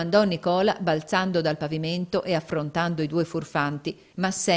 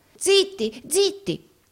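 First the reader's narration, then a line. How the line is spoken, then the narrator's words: Terrified exclamation. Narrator (Italian): esclamò Gride, atterrito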